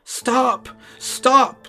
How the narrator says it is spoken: the little man cried out

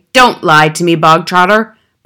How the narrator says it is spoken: barked the Trunchbull

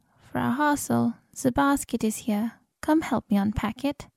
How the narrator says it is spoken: Frau Jost calling

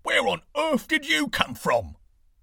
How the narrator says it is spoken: cried

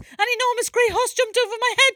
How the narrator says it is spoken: yelled Cable

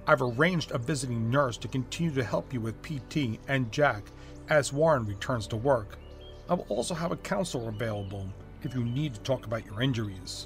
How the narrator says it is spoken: the doctor said in a more serious tone

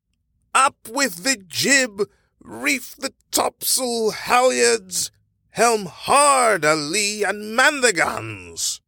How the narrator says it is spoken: roared the captain

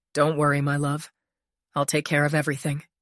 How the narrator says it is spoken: he said in a low voice

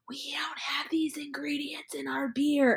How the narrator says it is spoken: whispering like

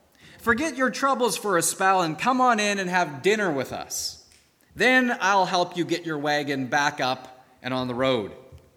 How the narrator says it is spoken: called out

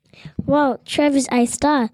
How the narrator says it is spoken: the photographer said

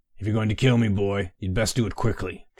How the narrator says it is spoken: Triffith growled

